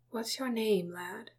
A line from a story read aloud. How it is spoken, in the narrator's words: Bilbo asked quietly